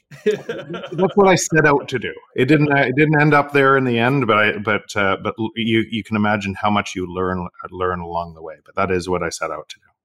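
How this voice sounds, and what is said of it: Faint Canadian accent. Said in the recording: “you have a faint Canadian accent”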